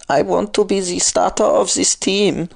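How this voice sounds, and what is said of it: Exaggerated fake German accent. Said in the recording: “ridiculous German accent”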